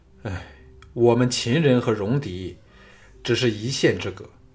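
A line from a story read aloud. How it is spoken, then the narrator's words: Sighing. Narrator (Chinese): 徐仙叹了一口气说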